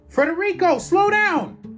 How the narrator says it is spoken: I yelled

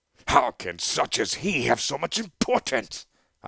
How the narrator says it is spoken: I bellowed

